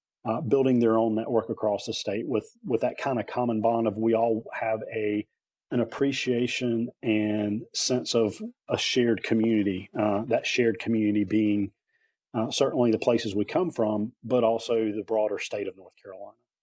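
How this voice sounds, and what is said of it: North Carolina accent. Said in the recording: “born and raised in this part of the state. The accent certainly gives me away”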